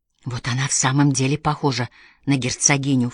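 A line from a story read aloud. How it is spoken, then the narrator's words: Low voice. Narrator (Russian): вполголоса проговорила Мэри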